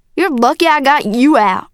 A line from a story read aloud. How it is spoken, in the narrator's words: yelled